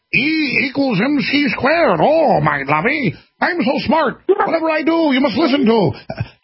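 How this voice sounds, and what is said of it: Einstein impression in Scottish accent. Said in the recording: “not a German accent, but now he has a Scottish accent? Einstein does.”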